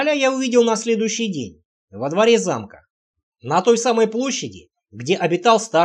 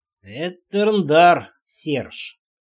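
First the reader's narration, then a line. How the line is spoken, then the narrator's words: Slow speech. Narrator (Russian): медленно сказал король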